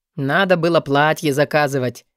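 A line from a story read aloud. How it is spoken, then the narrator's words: Snort. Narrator (Russian): хмыкнул Алви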